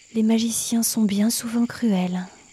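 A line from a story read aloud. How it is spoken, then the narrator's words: Sighed. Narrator (French): soupira la lune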